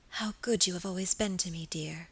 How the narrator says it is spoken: she whispered softly

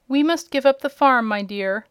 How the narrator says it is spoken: replied her uncle sadly

